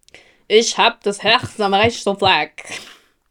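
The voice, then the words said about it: Put-on Kölsch dialect. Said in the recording (German): “ich mache jetzt Kölsch ... ich kann nur einen Satz auf Kölsch”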